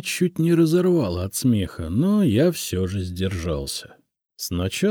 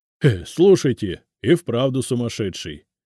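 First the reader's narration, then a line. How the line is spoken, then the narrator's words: Nervous chuckle, foreman. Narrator (Russian): нервно хохотнул бригадир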